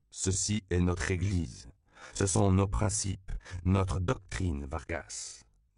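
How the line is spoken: Calm. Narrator (French): dit calmement le père Alfonso

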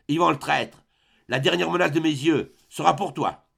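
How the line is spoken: Menacing voice. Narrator (French): dit-il d'une voix menaçante

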